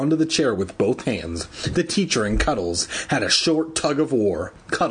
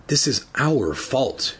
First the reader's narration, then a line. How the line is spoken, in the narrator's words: she murmured